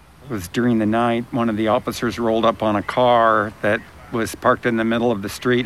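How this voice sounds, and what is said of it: Distinctive Arkansas accent. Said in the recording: “that distinctive Arkansas accent”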